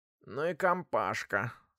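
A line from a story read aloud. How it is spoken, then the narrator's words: Sleepy grumble, mother. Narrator (Russian): спросонья буркнула мамаша гроссмейстера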